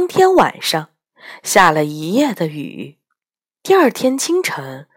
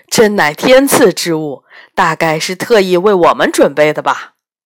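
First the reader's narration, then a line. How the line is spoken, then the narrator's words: Smiling. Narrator (Chinese): 仓颉笑着对大家说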